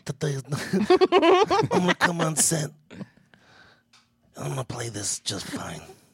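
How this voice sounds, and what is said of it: Marlon Brando impression. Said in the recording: “do a Marlon Brando impression.”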